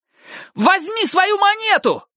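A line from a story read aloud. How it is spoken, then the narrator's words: Yelled. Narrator (Russian): завопил Ник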